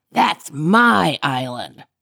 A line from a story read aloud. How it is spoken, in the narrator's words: growled Grady Gator